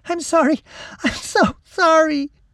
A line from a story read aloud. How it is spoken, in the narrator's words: She sobbed